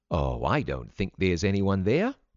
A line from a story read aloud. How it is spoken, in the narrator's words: Mother said, in a lighter tone than she really felt